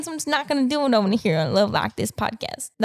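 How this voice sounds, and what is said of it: Put-on country accent. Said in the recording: “a little bit country there ... I'm just mashing all my accents together”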